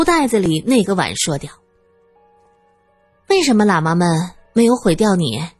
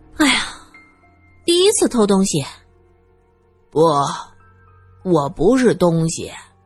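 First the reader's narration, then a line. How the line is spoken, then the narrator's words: Relieved long sigh. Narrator (Chinese): 终于远离寺院，苏三这才长长的叹了口气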